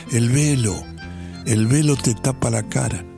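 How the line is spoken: Almost inaudible whisper. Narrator (Spanish): en un susurro casi inaudible

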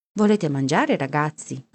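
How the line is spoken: Plain. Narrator (Italian): ci chiese

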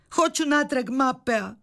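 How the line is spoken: Shouting. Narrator (Croatian): vikala je Sofija

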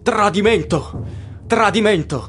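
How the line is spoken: Crowd shouting. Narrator (Italian): gridano

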